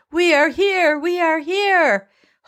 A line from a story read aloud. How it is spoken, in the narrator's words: they're all yelling